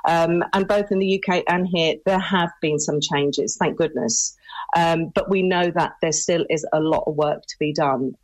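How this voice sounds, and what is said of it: British accent. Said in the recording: “you can tell from my accent. I was born and raised in the UK”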